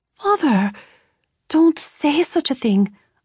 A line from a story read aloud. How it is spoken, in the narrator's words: I gasped